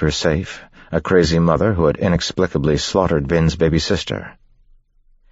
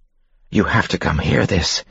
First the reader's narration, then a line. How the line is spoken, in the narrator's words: he whispered to the people at the table